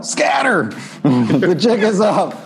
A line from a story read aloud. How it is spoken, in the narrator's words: yells out